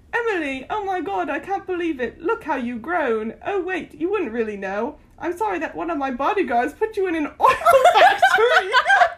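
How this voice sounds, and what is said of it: Put-on British accent. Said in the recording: “Should I read it in a British accent?”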